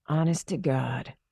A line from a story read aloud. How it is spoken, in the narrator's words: whispered